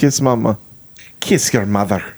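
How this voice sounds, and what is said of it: Poor put-on Scottish accent. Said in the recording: “Say it in a Scottish accent, please. ... my shitty accent”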